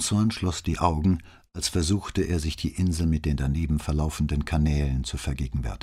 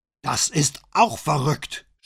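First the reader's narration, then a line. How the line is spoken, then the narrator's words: Shouting. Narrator (German): schrie Bonsmann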